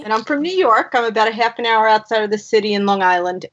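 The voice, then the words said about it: Brooklyn New York accent. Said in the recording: “I sound like I'm from Brooklyn”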